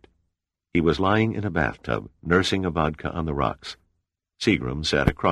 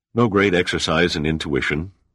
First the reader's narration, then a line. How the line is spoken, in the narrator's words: he said